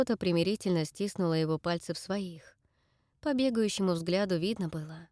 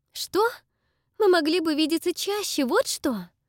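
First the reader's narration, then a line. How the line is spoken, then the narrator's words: Heated exclamation. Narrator (Russian): Горячо воскликнула Дакота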